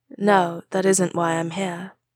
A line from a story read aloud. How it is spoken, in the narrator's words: A whole complex set of emotions passed over the man's face, but he said softly